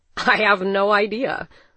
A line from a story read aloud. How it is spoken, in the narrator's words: said, laughing and dumbfounded